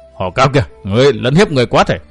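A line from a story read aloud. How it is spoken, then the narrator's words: Frightened fierce roar. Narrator (Vietnamese): Câu hồn ma nữ kinh hãi, gầm thét nói giọng dữ dằn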